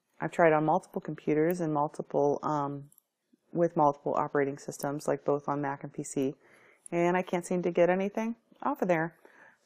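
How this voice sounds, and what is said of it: Raspy, hoarse sick voice. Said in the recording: “excuse my voice. It's a little raspy and yucky. I've been sick on and off”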